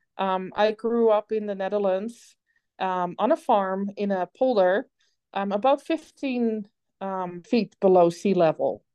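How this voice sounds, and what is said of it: Dutch accent. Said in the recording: “if anybody has been wondering what my accent is, it's Dutch”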